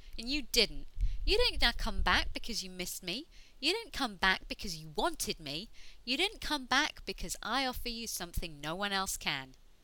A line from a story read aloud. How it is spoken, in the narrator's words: Ianto snapped